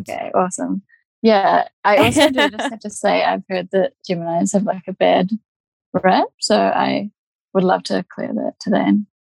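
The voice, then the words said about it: Speaks with a noticeable accent. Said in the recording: “I hope everyone can understand my accent as well ... I think everyone will be delighted to hear your accent.”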